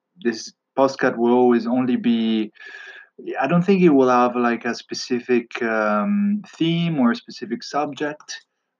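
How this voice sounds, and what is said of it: Strong Italian accent in English. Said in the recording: “in English with a very Italian accent.”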